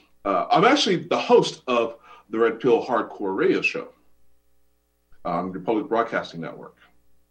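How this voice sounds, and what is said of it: American accent. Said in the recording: “you're an American with the accent”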